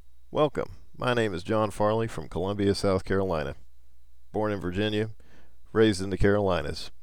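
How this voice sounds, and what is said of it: Light upcountry South Carolina accent. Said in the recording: “I speak with a bit of a Carolinian accent, lighter than some, stronger than others ... My accent is more of an upcountry accent, as noted by the way I say dog, fog, or log, or perhaps the way I put an R in a word like Washington.”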